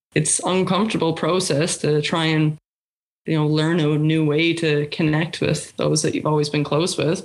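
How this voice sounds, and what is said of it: Emotional, hurt-sounding voice. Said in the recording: “there's a lot of hurt, as you can hear in my voice”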